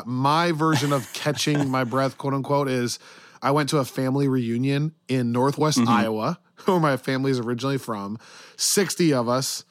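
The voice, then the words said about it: Hoarse, worn-out voice. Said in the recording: “as you can probably hear, my voice is totally shot ... So my voice is totally shot.”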